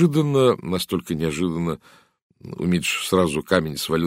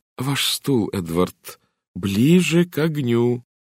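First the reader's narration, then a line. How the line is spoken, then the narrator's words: Loud and slow. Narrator (Russian): сказала она громко и медленно, словно говорила с глухим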